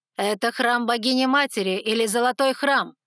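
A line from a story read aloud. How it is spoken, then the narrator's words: Said loudly. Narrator (Russian): громко произнесла жрица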